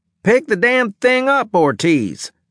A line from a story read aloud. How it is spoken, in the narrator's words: shouted Adjunct Leeson